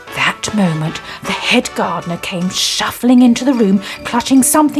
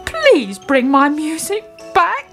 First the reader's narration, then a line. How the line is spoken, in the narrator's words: he pleaded